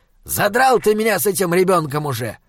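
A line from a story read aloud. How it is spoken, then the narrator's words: Irritated demon barking. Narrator (Russian): раздраженно рявкнул демон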